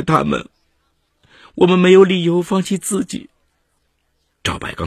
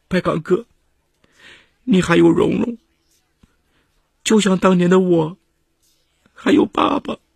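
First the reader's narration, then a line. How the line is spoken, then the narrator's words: Crying. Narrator (Chinese): 张威哭着说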